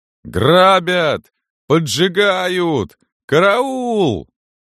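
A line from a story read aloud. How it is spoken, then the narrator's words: Desperate hoarse shouting. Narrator (Russian): Кто-то кричал отчаянно и хрипло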